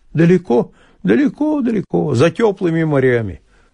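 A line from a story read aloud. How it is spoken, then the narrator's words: Wistful sigh. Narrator (Russian): вздохнул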